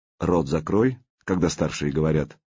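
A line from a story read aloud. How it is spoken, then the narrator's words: Dry. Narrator (Russian): сухо произнес Артем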